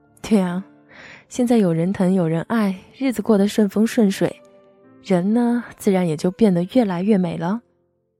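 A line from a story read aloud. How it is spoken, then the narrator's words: Smiling. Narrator (Chinese): 我笑着回答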